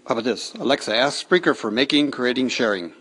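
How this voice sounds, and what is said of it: American mid-Atlantic accent. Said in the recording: “the American with a mid-Atlantic accent”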